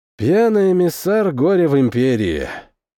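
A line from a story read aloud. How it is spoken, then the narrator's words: Sigh. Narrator (Russian): вздохнул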